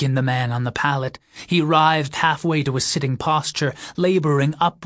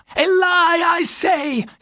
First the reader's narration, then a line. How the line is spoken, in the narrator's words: cried with a sudden strength that might well have been his last